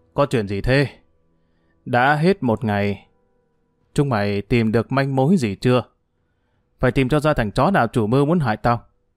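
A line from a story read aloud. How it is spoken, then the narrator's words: Harsh growl. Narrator (Vietnamese): Hưởng gằn giọng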